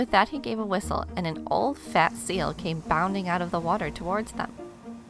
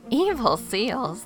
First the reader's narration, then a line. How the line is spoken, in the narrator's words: the man laughed